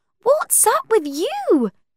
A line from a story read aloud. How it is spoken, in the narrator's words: Cordelia cried